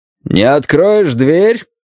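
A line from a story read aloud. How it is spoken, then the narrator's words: Loud, through a door. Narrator (Russian): сказал он громко, чтобы мне было слышно сквозь дерево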